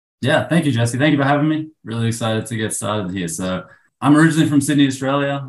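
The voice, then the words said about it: Australian accent. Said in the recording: “I can't tell by your accent either.”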